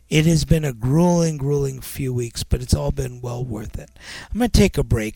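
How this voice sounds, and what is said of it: Tired-sounding voice. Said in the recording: “You probably can tell in my voice that I'm fairly tired.”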